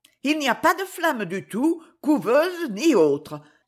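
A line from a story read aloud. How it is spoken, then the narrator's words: Shocked, embarrassed exclamation. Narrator (French): s'écria Clermonde, très choquée et devenant toute rouge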